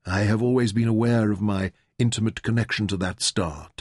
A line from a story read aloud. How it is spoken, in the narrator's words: Taita murmured